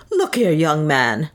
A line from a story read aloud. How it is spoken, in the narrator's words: he said more furiously than before